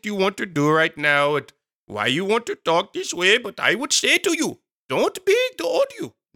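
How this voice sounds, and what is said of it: Put-on unspecified accent. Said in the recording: “I should talk in the accent right now... That's my random accent”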